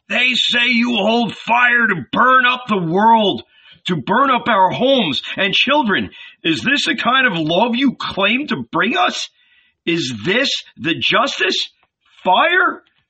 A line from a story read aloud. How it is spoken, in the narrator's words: a young man, newly married, shouted